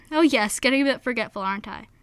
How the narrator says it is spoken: Her father simply chuckled and said

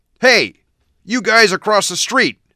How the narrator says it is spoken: a man yelled

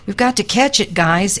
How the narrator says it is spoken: Eric cried

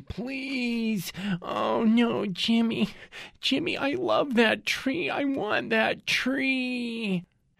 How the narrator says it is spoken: His girlfriend, a large person, is wailing

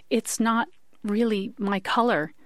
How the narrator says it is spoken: Lois managed to gasp

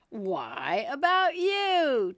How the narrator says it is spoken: Tweedledee exclaimed, clapping his hands triumphantly

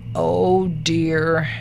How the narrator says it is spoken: Finally, with a long sigh, came from the hole

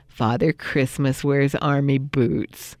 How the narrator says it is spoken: thinking

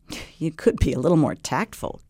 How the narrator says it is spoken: Kate said, laughing, although she was also a little irritated

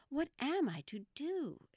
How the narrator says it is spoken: exclaimed Alice, in great perplexity

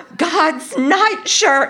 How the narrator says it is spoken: I screamed in my best Scarlett O'Hara imitation

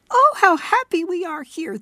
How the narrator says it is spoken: they cried to one another

